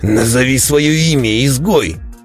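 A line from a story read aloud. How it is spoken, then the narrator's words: Impatient bark. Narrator (Russian): рявкнул начавший терять терпение Невронт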